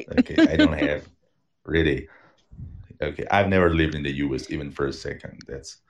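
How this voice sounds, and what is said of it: Learned American-style English accent. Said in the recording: “how's my accent? ... Oh, it's fine. We can understand you perfectly. ... I acquired this accent by listening to audio tracks and whatever, watching movies”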